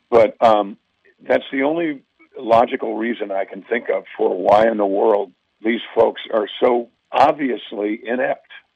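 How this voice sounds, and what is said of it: Hoarse voice. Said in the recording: “I'm hoarse. I've been talking a lot today.”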